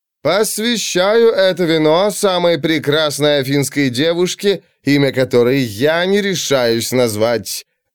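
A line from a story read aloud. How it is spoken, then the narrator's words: Loud chanting. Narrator (Russian): громко и нараспев произнес Алкивиад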